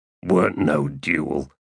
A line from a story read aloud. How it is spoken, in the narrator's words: growled one of the other men